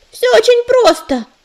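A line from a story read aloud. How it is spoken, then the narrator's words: Ringing shout. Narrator (Russian): звонко крикнула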